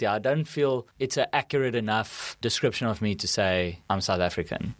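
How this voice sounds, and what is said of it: Afrikaans-accented English. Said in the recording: “my accent and everything is Afrikaans”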